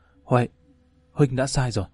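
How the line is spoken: Breathless whisper. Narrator (Vietnamese): Giang Thanh hồn hền thì thầm

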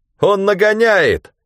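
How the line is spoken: Shout. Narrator (Russian): крикнул Ганилон

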